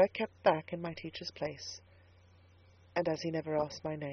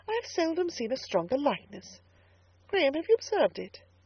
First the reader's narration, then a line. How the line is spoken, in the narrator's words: she exclaimed presently